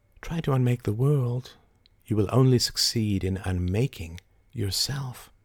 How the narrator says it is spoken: she whispered

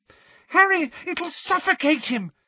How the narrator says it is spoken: screamed Ginny, immobilized by her broken ankle

